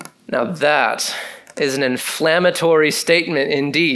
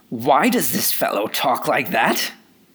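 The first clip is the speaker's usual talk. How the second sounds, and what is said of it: Mocking, annoying self-righteous voice. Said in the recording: “that is like my best impersonation of a religious spirit. Maybe it's more annoying”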